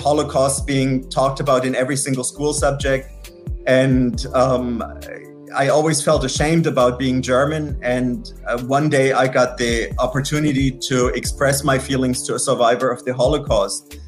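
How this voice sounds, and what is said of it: German accent. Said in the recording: “as you can hear from my accent, that I'm originally from Germany”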